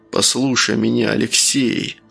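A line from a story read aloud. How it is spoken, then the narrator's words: Whisper in ear. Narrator (Russian): шептал ему в ухо Евгений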